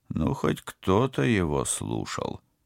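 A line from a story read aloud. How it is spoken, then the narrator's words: Mutter. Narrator (Russian): пробормотал капитан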